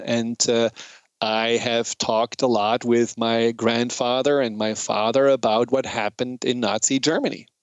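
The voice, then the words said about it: German accent. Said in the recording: “as you probably know or hear from my accent, I'm German”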